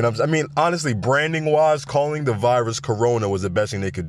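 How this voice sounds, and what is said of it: Usual voice. Nothing is said of it.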